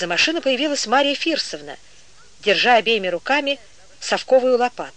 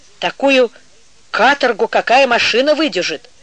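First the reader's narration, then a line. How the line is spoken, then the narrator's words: Angry curt remark. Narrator (Russian): сердито бросила женщина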